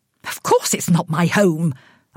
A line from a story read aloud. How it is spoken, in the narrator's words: I snapped